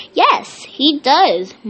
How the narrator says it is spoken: Mom snapped

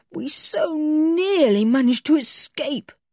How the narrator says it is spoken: groaned Julian

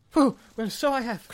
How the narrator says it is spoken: cried Bilbo

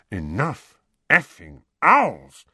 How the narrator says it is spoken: muttered Uncle Vernon distractedly

